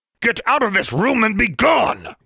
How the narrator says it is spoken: bellowed

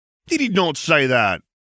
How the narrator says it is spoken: cried McNair, the eldest, seventh year

